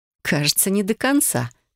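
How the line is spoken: Theatrical sigh. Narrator (Russian): картинно вздохнула я

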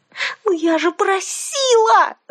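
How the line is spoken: Yelling. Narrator (Russian): завопила я

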